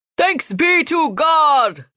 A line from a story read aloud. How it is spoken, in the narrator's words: the priest shouted